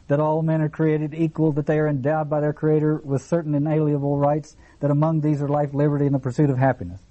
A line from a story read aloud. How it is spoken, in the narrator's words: she shouted